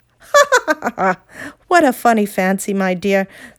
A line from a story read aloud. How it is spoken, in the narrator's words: said Uncle Andrew with a loud laugh